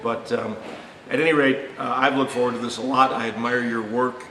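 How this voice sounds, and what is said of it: Hoarse, croaky voice from a cold. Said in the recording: “apologize for my voice. I've been fighting off a cold the last couple of days, and I think I'm croaking a little bit”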